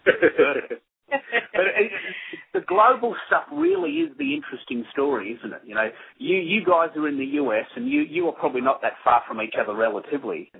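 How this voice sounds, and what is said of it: Australian accent. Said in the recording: “I come from the land down under ... your accent is like phenomenal ... We speak in a very funny way”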